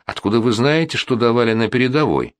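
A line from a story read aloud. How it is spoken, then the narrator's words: Calm objection. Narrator (Russian): спокойно возразил Ледневский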